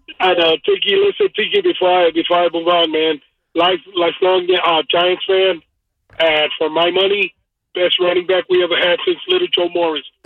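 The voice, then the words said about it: Hoarse voice. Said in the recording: “I'm a little hoarse”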